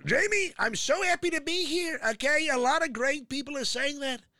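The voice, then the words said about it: Donald Trump impression. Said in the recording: “the rally Trump ... do an impression ... you do him amazing”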